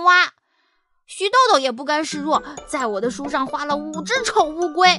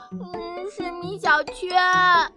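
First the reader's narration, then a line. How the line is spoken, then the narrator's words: Crying. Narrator (Chinese): 徐豆豆边哭边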